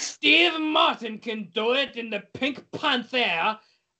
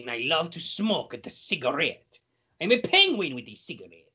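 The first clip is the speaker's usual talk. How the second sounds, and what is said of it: Put-on French accent, Mario-like. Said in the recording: “What's a good French song? ... You're talking like this. ... Why do you always end up sounding like Mario?”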